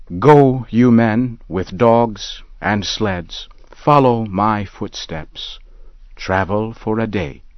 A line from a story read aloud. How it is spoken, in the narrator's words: he said